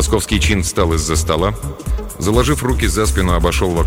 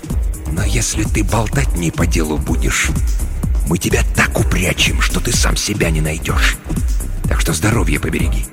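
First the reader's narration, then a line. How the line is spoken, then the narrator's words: Disgusted hiss near ear. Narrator (Russian): наклонился к его уху и, брезгливо морщась, прошипел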